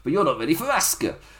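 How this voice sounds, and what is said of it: Put-on Japanese accent imitating Asuka. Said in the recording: “With my amazing Japanese accent.”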